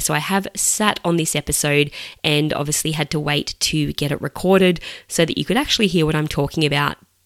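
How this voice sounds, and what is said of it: Slightly croaky voice. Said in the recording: “my voice is a little bit croaky ... I did lose my voice”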